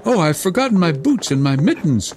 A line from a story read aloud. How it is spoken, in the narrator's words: cried Gerda, as soon as she felt the cutting cold